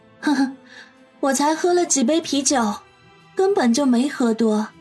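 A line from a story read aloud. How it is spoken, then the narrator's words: Chuckling. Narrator (Chinese): 杨思思呵呵笑道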